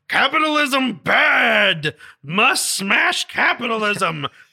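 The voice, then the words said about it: Frankenstein monster voice. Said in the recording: “Godzilla, ... impersonation. ... It's my Frankenstein impression.”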